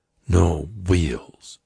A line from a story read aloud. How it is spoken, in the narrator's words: Tasso said calmly